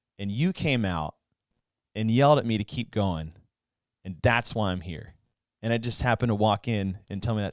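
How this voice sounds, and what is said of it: Emotional, choked-up voice. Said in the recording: “now I'm getting all emotional”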